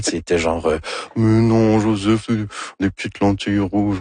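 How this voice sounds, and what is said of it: Imitates another person's voice. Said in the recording (French): “Ça, c'est mon imitation de Anne Dorval. ... C'est très réussi”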